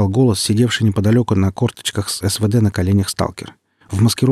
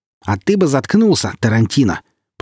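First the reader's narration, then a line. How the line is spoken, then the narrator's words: Grating, angry. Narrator (Russian): проскрежетал Цимус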